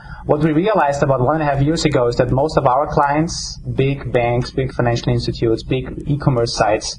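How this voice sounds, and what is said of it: Austrian German accent, slightly New England. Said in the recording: “my strange accent comes with my German-Austrian background ... kind of a mixture of my accent of New Englandish and Austrian”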